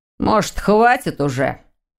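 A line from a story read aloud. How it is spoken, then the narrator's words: Angry retort. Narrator (Russian): Сердито кинул Дамиан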